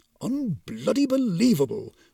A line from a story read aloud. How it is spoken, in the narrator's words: muttered the Shinigami